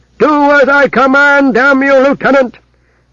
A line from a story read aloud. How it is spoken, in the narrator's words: shout savagely